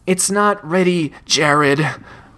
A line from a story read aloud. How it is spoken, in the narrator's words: Richard breathed